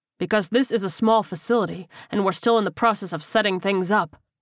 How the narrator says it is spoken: Hopkins snapped, unamused with the tone the man had taken with him

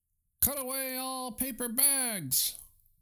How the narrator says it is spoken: roared the owner

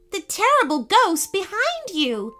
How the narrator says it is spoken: spluttered Eden

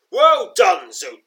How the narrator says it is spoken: bellows

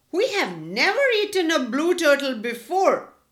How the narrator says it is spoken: called out another one

